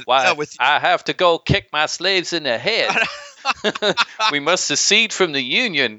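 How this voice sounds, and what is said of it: Exaggerated Southern US accent. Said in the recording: “authentic Southern accents ... everybody talks like they're from South Carolina”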